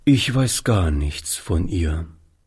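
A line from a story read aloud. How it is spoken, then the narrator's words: Sad answer. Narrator (German): antwortete Oliver, indem er traurig den Kopf schüttelte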